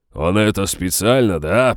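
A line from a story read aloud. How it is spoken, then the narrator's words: Growl. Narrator (Russian): прорычал Хор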